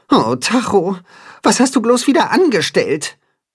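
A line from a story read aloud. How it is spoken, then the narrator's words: Sighing. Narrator (German): seufzt Timme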